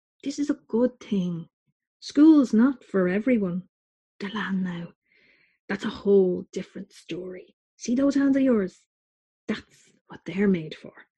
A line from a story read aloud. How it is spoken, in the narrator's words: Tony whispered later in bed as we lay in the dark